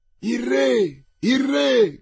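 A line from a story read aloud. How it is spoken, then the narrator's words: Several people shouting. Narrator (Italian): gridarono parecchi, illusi dal cordone turchino e dal cavallo sauro di Lord Winter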